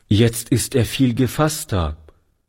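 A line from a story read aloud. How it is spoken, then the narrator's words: Plain. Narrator (German): sagte Toni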